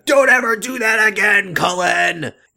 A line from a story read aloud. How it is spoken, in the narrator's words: shouting